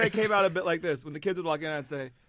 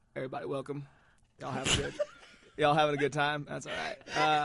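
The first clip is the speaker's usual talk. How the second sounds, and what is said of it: Put-on Southern accent, McConaughey-like. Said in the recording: “a little bit of a hint of a southern accent ... so you were Matthew McConaughey?”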